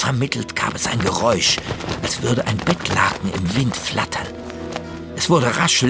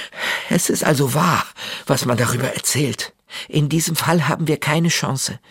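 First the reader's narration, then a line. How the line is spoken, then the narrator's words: Breathless addition. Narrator (German): fügte Astrid atemlos hinzu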